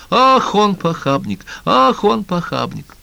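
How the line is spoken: Joyful chorus. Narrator (Russian): хор голосов радостно подхватывал

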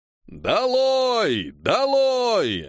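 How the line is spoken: Crowd roaring deafeningly. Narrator (Russian): оглушительно взревела толпа

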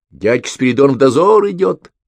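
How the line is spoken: Children shouting. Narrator (Russian): кричали друг другу ребятишки

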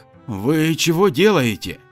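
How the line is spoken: Frightened question. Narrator (Russian): Испуганно спросил Игнат Сергеевич

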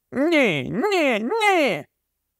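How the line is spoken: Anguished cry. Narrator (Ukrainian): Він вигукнув із мукою

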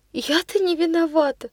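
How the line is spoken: Sobbing. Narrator (Russian): Прорыдала она снова

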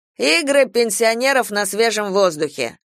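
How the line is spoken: Mocking. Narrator (Russian): насмешливо сказал ООО Вере

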